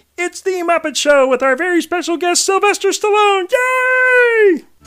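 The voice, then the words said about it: Kermit the Frog character voice. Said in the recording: “this is my Kermit the Frog impression”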